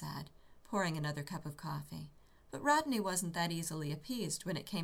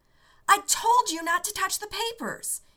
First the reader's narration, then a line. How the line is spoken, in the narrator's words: he yelled